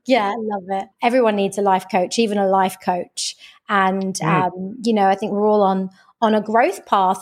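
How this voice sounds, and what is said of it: British accent. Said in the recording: “you have this great British accent”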